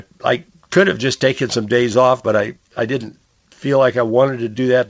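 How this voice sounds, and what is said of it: Scratchy, strained voice. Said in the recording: “I'm losing my voice again today ... listening to a scratchy voice”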